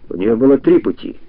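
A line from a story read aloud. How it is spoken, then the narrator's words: Even gloomier correction. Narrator (Russian): еще более мрачно поправил его лупоглазый бандит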